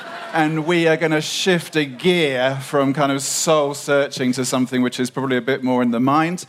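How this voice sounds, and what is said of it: British accent. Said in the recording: “I've got a funny British accent”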